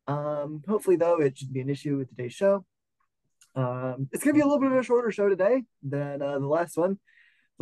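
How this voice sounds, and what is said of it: Slightly funky, sick-sounding voice. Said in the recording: “I was sick... In case you couldn't tell, my voice is actually still a little bit funky.”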